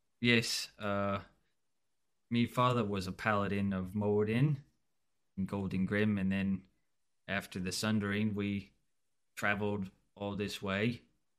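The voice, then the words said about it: Put-on regional accent. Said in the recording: “I thought I recognized the accent. ... you do seem to have the dialect.”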